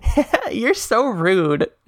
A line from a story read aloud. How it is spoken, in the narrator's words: she said, laughing